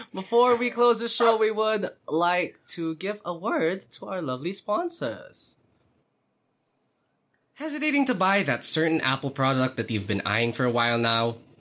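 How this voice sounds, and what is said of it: Put-on British accent. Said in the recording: “why am I going back to the British accent?”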